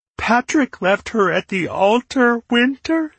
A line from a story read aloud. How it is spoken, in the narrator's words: Cedar sobbed